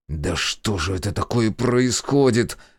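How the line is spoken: Exasperated hiss. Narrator (Russian): в сердцах прошипел

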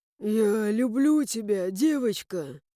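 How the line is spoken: Impulsive hoarse baritone. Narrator (Russian): Порывисто просипел Эван севшим баритоном

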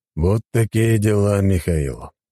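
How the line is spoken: Sigh. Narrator (Russian): вздохнул спартанец

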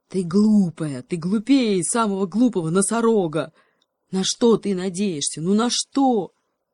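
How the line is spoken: Animal growl. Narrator (Russian): рычал гепард

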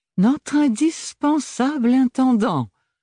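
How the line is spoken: Ironic exclamation. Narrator (French): s'exclama Archibald avec une intonation fondante d'ironie

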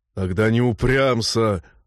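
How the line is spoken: Growled. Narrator (Russian): рыкнул Норл

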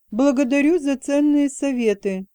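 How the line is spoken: Snide smile. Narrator (Russian): Юноша ехидно улыбнулся

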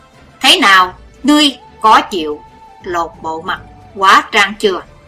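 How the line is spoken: Loud angry shout. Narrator (Vietnamese): Hải Âu quái cách càng thấy càng hiểu lầm thêm hơn, quát to

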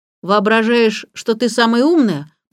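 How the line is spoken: Grumbling. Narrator (Russian): проворчал Сирил

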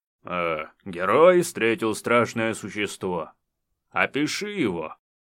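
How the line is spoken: Deep bass voice. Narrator (Russian): басом сообщал рабочий

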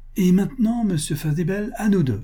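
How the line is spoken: Triumphant exclamation. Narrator (French): s'écria Madame Garded d'un ton triomphant

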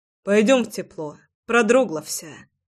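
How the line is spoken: Sighing. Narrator (Russian): вздохнул Саша

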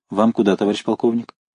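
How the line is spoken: Respectful, familiar undertone. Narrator (Russian): Рослый автоматчик одновременно почтительно и фамильярно спросил вполголоса

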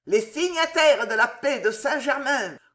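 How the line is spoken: Vociferated. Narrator (French): vociféra Pezou

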